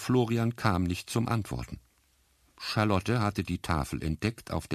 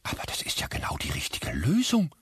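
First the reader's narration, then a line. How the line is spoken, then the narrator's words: Stunned whisper. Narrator (German): flüsterte Frau Büsselm fassungslos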